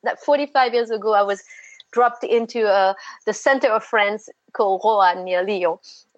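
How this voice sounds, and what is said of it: French accent. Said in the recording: “it's a French accent.”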